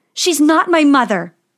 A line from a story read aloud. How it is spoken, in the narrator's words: yelled Snow White